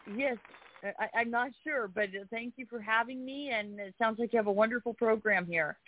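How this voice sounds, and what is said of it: Young-sounding voice. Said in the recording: “You sound pretty young”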